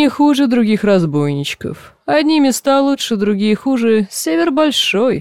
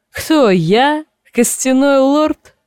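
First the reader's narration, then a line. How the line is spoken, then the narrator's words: Bursting into laughter. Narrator (Russian): Одичал и расхохотался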